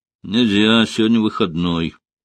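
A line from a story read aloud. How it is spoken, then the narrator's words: Guard's gruff mutter. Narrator (Russian): буркнул охранник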